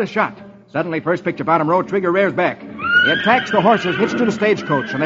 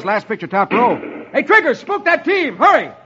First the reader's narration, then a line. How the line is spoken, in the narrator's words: Roy yells